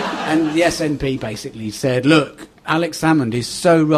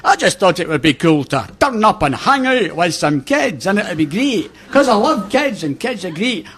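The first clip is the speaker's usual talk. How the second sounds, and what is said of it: Imitates the co-host's accent. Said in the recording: “That's your accent, in case you're confused, audience.”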